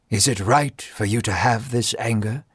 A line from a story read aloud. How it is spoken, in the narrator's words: God asked gently